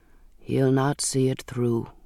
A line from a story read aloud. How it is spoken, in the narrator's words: he said softly